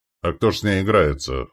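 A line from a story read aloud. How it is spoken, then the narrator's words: Skeptical grunt. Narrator (Russian): хмыкнул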